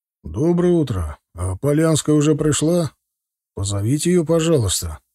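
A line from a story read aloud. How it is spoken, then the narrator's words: Tired request. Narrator (Russian): попросил он устало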